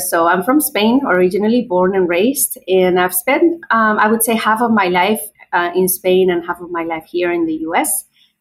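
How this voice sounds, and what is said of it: Spanish accent. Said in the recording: “as you can probably tell by my accent. I might be from, you know, I have an accent”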